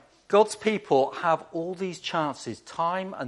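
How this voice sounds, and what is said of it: Usual voice. Nothing is said of it.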